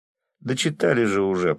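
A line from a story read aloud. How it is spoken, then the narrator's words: Grumbling. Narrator (Russian): проворчал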